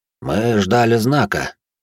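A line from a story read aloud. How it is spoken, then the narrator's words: Quiet explanation. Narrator (Russian): негромко пояснил за магистра Аббат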